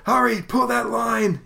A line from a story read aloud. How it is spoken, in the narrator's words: he shouts up